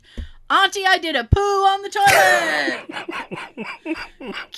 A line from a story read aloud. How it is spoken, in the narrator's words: my 3-year-old niece screamed